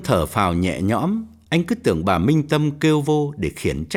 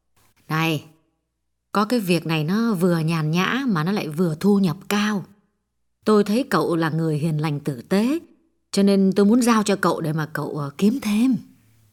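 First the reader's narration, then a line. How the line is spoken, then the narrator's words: Gentle woman's voice. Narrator (Vietnamese): Bà dịu dàng nói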